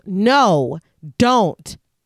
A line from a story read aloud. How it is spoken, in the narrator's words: Erin when she yells